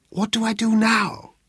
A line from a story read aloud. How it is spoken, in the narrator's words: he inquired of Flynn O'Flynn in a stage whisper